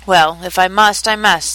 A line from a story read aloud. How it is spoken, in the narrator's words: the king said